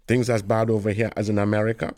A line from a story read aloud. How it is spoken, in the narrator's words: Galahad asked